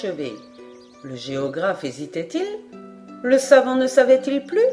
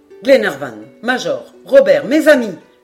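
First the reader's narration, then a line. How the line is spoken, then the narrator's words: Exclaimed. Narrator (French): s'écria Paganel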